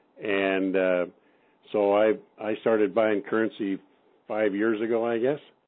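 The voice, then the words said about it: Non-New Zealand English accent. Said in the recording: “As you can tell by my accent, I'm not Kiwi.”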